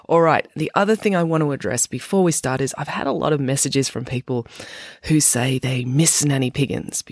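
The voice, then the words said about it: Sick, slightly off voice. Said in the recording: “my voice is pretty off. I'm a bit sick... why I sound funny”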